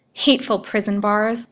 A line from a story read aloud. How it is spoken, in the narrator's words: said she angrily